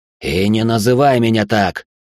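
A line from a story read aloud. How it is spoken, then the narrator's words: Nervous barking. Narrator (Russian): Рявкнул, нервничая от того, что осознавал все отчетливее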